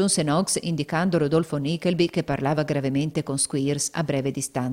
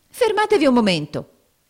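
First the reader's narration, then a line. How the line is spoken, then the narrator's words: Exclaiming. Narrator (Italian): esclamò Nicola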